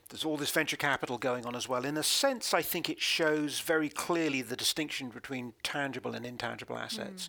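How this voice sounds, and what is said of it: London English accent. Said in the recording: “as you can probably tell from our accent, are from London”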